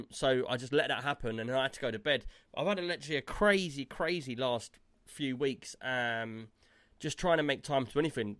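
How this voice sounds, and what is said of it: Sounds ill. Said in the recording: “you can probably hear in my voice, I literally got ill yesterday”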